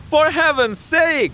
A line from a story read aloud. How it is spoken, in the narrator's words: he cried, with a strange mixture of alarm and intimidation